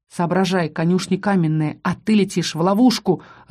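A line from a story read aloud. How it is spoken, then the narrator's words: Growled. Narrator (Russian): рыкнул Рос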